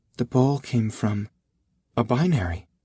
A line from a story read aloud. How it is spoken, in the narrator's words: Irma whispered